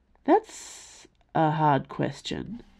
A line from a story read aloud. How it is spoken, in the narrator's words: slurred